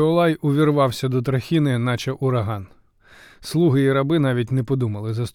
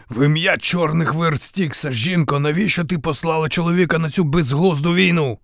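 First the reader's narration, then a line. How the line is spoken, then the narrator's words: Growl. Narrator (Ukrainian): Замість привітання прогарчав Іолай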